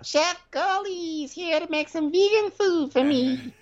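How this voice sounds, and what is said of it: Strange imitation of Portia's voice. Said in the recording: “a very strange Portia accent”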